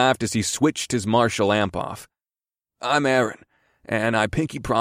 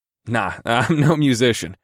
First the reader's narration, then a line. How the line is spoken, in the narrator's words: I chuckled